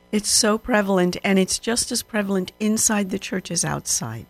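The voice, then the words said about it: Congested voice from a cold. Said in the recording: “fighting off a bit of a cold ... I'm fighting a cold, so my voice may sound a little funny.”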